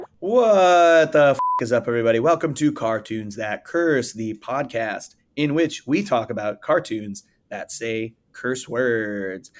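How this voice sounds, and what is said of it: Slightly hoarse, gravelly voice. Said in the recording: “my voice sounds a little hoarse right now, a little gravelly, a little sexier ... it's not cracking, but it is a little gravelly”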